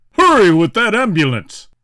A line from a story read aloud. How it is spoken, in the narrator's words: Roger shouted